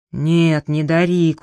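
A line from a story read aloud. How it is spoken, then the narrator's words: Tired reply. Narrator (Russian): устало отозвался Джеральд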